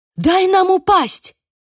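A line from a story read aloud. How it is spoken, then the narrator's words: Sudden shout. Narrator (Russian): крикнула вдруг Сьюзи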